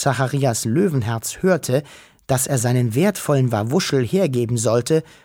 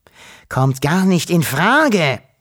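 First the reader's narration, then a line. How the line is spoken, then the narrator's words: Shouted. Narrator (German): schrie er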